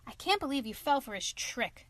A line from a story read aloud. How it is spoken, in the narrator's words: cried the clown